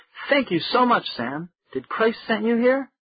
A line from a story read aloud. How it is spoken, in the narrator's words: Sam choked with excitement